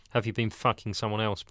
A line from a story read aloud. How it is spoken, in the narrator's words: Paul asked